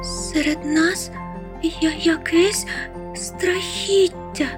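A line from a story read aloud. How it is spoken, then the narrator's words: Frightened muffled babbling. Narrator (Ukrainian): Жебоніла злякано з-під ковдри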